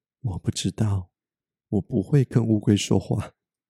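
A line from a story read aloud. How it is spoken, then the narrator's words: Soft-spoken mother. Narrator (Chinese): 妈妈轻声的说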